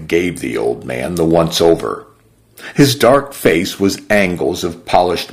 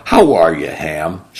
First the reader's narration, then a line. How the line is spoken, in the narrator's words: she finally asked